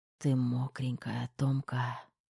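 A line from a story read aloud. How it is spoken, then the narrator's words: Husky whisper. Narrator (Russian): сипло шепнул Кир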